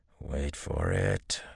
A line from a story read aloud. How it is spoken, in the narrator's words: growled